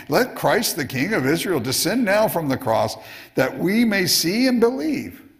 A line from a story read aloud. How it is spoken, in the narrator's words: he said, they continue on with their mocking